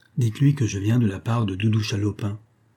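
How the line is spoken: Murmuring. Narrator (French): murmura-t-il

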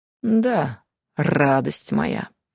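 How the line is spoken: Calm purr. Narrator (Russian): невозмутимо промурлыкал фамильяр

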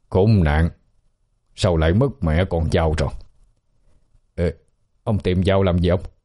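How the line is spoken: Muttering. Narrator (Vietnamese): miệng lẩm bẩm

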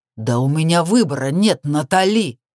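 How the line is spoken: Angry, desperate growl. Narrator (Russian): Прорычал он зло и отчаянно одновременно

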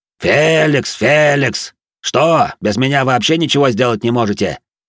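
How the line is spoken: Barked shout. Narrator (Russian): гаркнул он

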